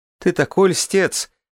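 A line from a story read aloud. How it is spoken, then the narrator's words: Laughing. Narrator (Russian): Граф рассмеялась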